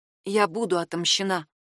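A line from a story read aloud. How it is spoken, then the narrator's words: Whisper. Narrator (Russian): прошептала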